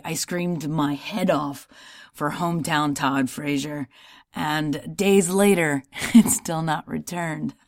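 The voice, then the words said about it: Slightly hoarse voice. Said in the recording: “my voice is a little hoarse tonight”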